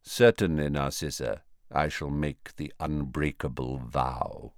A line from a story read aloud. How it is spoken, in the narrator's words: said quietly